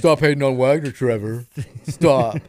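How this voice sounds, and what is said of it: Mock imitation of co-host's voice. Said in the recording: “I'm doing your voice now. I'm doing your thing.”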